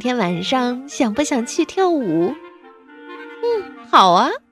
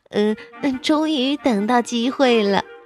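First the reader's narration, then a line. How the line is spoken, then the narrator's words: Giggling. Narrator (Chinese): 阿德咯咯咯的笑着说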